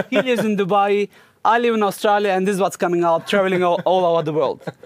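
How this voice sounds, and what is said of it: German speaker with Turkish-Arabic accent. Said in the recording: “our parents are Turkish and a little bit Arabic mixed. Probably you are noticing this from our accent as well”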